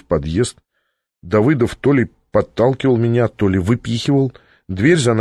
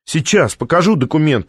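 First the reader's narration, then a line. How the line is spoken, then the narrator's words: Yelling after someone. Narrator (Russian): вопила вслед Наталья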